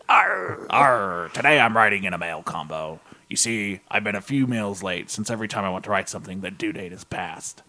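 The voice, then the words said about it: Pirate character voice. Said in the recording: “in a pirate voice ... is a hard voice to do”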